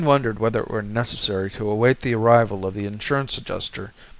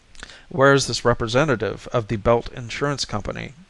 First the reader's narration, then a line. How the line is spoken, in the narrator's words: asked Mayne